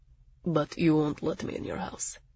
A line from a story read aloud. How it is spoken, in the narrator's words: Zell said coolly